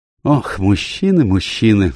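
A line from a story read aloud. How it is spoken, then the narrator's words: Sighing. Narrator (Russian): вздохнула миссис Оливер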